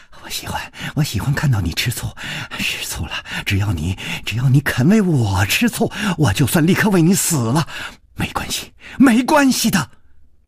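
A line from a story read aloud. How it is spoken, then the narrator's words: Soft, tender. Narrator (Chinese): 宫南燕柔声说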